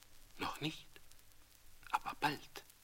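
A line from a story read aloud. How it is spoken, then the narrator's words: Quiet answer. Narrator (German): antwortete sie leise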